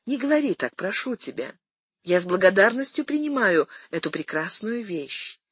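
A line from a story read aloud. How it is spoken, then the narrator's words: Gentle. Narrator (Russian): Отикубо мягко остановила ее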